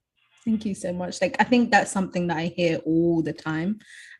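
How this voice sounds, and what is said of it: Speaks with a noticeable accent. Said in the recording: “your beautiful accent that draws all these people just to hear your voice ... The voice, it's beautiful”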